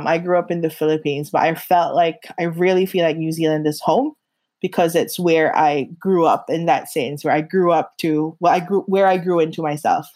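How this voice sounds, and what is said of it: Blended American and New Zealand accent. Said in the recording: “your accent, such a beautiful blend of both... It was very, very strongly American when I first moved here... Now the Kiwi is there. I can so hear that.”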